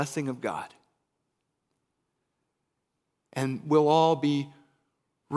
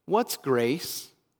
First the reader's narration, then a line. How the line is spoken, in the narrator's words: asked Eric